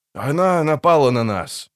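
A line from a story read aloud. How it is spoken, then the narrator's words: Sorcerer's sullen grumble. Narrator (Russian): буркнул чародей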